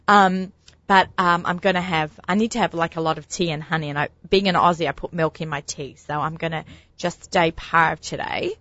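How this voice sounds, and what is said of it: Hoarse, deeper voice from sore throat. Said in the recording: “I have a bit of a sore throat. I think my voice sounds a little bit deeper than usual.”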